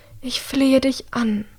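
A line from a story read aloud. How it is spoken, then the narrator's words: Mother breathing softly. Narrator (German): haucht ihre Mutter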